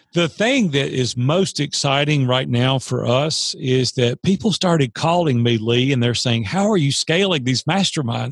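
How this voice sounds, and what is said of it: Southern drawl. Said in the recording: “Listen to this Southern drawl.”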